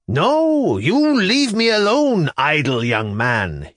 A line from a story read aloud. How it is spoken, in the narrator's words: he cried out at me at the top of his voice